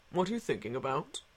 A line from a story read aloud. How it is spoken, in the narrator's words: said the doctor softly